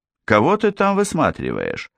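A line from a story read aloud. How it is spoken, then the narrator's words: Snide question. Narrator (Russian): ехидно спросила Анна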